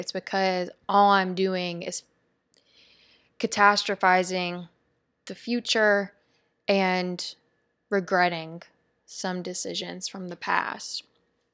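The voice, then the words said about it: Depleted, tired-sounding voice. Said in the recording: “you could probably hear it in my voice, I sound pretty depleted”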